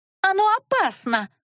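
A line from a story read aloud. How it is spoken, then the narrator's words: Shrill female shriek. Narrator (Russian): взвизгнула эльфийка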